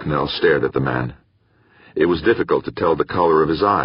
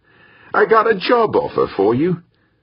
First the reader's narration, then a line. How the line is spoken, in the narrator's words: Ambrose said more cheerfully